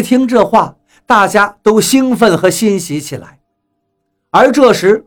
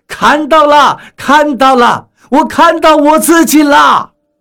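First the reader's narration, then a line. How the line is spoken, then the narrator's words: Excited shout. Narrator (Chinese): 拿镜子的船员激动地叫了起来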